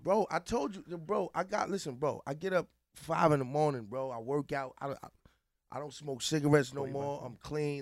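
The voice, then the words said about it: Tired voice, breaking and cracking. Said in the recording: “I'm tired right now. My voice is breaking, cracking.”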